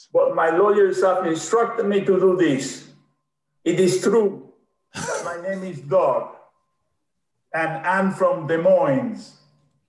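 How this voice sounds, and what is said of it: Put-on Austrian-style accent. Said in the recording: “laughing at Arnold Schwarzenegger's accent ... This accent is fake.”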